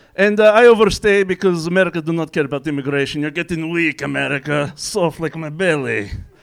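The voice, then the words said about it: Put-on Russian accent. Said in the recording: “I do come from Russia, if you know the slight twang in my accent”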